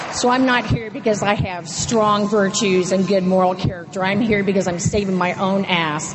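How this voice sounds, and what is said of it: Southern Texas twang. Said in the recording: “If y'all hear a twang, that ain't Oregon. I was born and raised in Houston, Texas”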